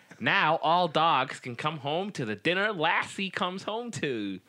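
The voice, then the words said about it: Exaggerated New York American accent. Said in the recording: “That was like the worst American accent ever ... Why did I say dogs in a New York accent?”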